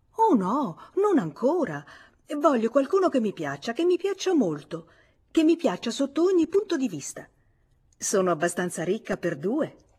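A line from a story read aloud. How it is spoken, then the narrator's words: Sincere exclamation. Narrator (Italian): esclamò sincera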